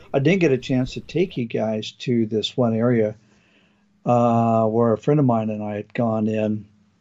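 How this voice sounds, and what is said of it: Hoarse, failing voice. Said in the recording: “excuse me, losing my voice.”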